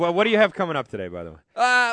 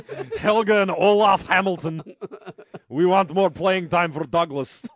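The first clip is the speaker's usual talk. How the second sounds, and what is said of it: Put-on foreign accent. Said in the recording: “I don't know what the hell that accent was.”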